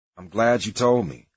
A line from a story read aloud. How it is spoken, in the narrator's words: I said